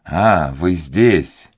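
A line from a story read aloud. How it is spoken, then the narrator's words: Exclaimed. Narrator (Russian): воскликнул он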